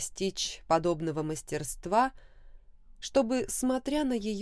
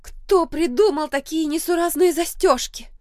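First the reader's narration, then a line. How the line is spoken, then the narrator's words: Despairing wail. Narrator (Russian): От безнадежности завопила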